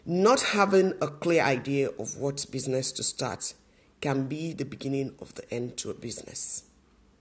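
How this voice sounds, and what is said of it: Voice affected by a cough. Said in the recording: “If you can hear from my voice, I do have a cough”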